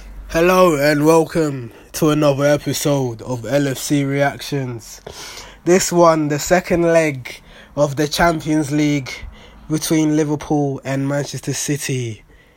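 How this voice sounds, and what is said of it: Raspy, strained voice. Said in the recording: “my voice is gone ... my voice is very raspy”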